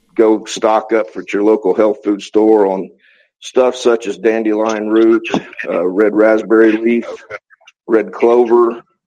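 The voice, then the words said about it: Out of breath, breathless speech. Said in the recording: “I'm kind of out of breath from tearing this wall down”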